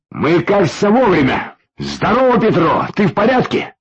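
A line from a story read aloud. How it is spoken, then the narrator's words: Shouted. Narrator (Russian): крикнул с порога Юрьев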